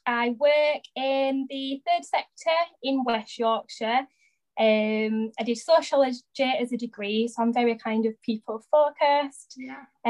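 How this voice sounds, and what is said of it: South Yorkshire accent. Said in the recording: “I'm from Barnsley in South Yorkshire, hence the accent.”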